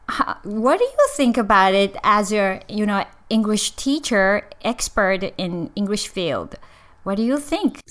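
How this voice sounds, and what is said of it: Non-native English accent. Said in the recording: “my pronunciation and accent. I'm not a native”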